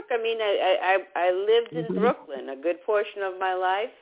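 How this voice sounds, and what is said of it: New York accent. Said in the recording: “it's not from the South ... you don't really talk Boston, but you don't really talk real strong New Jersey ... But yours is more New York”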